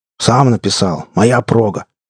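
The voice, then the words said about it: Mocking imitation of another's voice. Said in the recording (Russian): “Неожиданно похоже передразнил он Саню”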